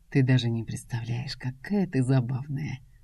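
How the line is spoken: Husky velvety whisper. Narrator (Russian): Раздается над моим ухом хриплый бархатный шепот

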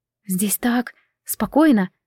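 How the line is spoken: Blissful whisper. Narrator (Russian): с наслаждением прошептала

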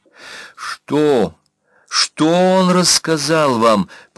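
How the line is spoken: Near moan. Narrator (Russian): почти простонал секретарь

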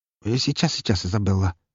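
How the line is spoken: Mumbling. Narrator (Russian): пробормотал он

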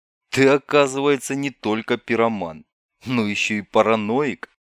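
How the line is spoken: Laughing. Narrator (Russian): Андрей рассмеялся

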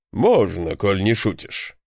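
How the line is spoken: Amused snort. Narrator (Russian): хмыкнул рыжебородый крепыш

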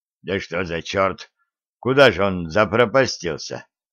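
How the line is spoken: Muttering. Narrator (Russian): бормотал Серафим Яковлевич

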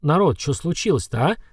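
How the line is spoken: Confused question. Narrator (Russian): растерянно спросил Храд

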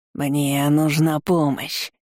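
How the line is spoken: Barely audible rasp. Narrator (Russian): Цперил прохрипел едва слышно

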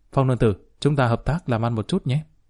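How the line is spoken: Quiet voice. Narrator (Vietnamese): Lý Kỳ nhỏ giọng nói

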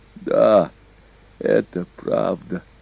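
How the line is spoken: Old man's moan. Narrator (Russian): простонал старик

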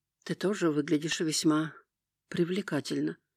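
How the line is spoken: Whisper. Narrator (Russian): прошептала Эметист, с удовлетворением

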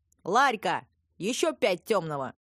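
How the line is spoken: Joyful shout. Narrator (Russian): радостно заорал Колот

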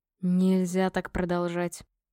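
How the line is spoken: Grumbling. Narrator (Russian): ворчала Горха

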